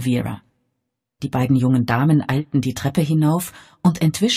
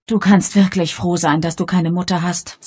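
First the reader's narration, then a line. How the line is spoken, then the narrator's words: Sighing. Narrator (German): seufzte Bridget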